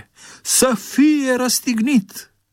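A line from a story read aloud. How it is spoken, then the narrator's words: Shouting even louder. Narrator (Romanian): au început să strige și mai tare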